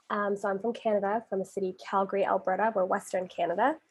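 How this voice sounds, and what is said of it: Generic North American accent. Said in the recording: “I am clearly not from the UK. Most people think American, but I'm Canadian by virtue of just having the very generic North American accent.”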